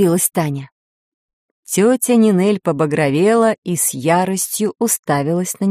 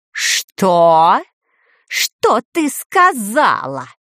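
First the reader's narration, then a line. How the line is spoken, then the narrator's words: Growled. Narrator (Russian): прорычала она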